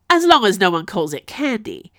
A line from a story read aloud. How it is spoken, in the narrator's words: burst out laughing